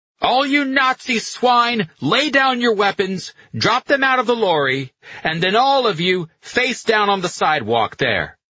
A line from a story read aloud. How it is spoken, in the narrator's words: shouting